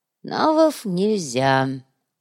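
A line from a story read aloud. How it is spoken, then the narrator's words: Sighing. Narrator (Russian): вздохнул Кумар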